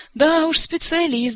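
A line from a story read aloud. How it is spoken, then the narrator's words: Laughing. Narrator (Russian): засмеялся Жак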